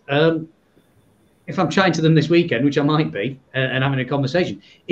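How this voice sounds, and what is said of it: Northern English accent. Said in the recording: “I've might hear from my accent. I'm somewhere from up north”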